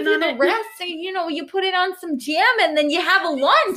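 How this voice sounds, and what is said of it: Put-on Wisconsin accent, sounds New York. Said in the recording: “that's probably not a Wisconsin accent at all ... It's like a New York accent trying to sound like a Wisconsin accent.”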